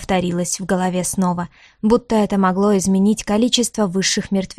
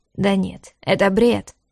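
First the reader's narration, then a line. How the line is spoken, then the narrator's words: Almost snorting. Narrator (Russian): едва не фыркнул вслух некромант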